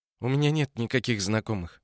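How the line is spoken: Tired. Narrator (Russian): устало сказала Ося

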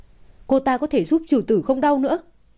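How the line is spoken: Sharp shout. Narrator (Vietnamese): Ưng quát

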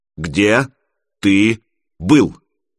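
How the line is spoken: Father, clipped and firm. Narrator (Russian): отчеканил отец

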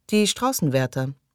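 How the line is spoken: Indifferent reply. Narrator (German): erwiderte Russell mit gleichgültiger Stimme

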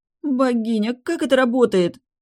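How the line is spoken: Moaning. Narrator (Russian): простонала

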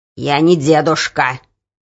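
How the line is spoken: Angry snap. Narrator (Russian): сердито огрызнулся прохожий

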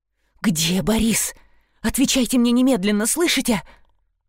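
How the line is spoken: Hissed into ear. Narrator (Russian): Зашипела она ему в ухо

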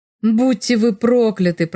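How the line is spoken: Groaning. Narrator (Russian): простонал Фрёлих

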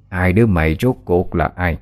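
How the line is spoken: Harsh ghostly old woman. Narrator (Vietnamese): hồn ma bà lão gằn giọng nói

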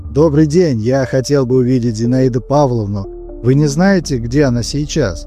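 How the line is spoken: Man, casual everyday tone. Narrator (Russian): Мужчина произнес совершенно обыденным тоном

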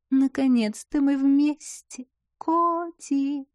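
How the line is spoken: Coquettish drawl. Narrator (Russian): кокетливо протянула белокурая тварь

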